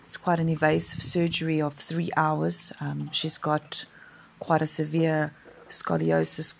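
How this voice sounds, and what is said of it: Voice sounds unwell. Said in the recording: “excuse my voice. I think I'm coming down with a little bit of flu”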